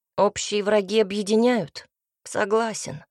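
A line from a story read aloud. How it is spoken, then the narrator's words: Gloomy reply. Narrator (Russian): мрачно ответил Цинта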